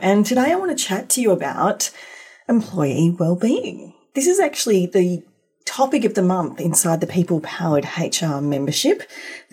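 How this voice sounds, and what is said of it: Croaky, hoarse voice. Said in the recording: “excuse my voice, as per last week's episode, I'm still a little croaky”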